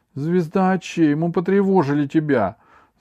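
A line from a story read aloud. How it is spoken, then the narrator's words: Shout from behind crowd. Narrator (Russian): закричал из-за спин пришельцев Аравиль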